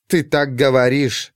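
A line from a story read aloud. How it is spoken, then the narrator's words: Curt snorting retort. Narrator (Russian): бросила она в ответ и фыркнула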